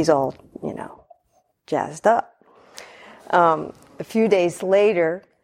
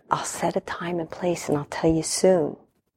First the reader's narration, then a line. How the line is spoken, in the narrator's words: whispered